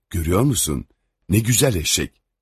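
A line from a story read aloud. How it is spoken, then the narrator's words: Vagabond speaking quietly. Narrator (Turkish): Serserinin biri ötekine yavaşça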